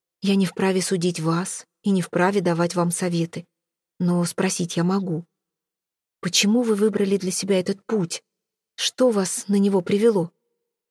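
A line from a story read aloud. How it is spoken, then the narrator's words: Gentle voice. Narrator (Russian): мягко произнес Виконт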